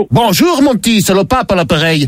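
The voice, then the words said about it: Put-on Belgian accent. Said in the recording (French): “pourquoi cet accent ? C'est parce que je suis le pape Léon de Bruxelles”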